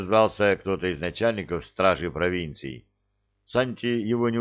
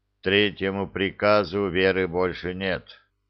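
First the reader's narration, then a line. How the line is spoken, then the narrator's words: Tired. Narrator (Russian): устало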